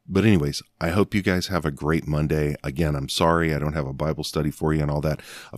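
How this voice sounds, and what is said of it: Strained, sore voice. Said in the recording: “I want to give my voice a rest today. ... sipping on the throat coat ... to try to settle it down”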